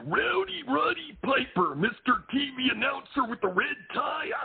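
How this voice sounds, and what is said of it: Imitates another person's voice. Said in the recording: “The impersonation”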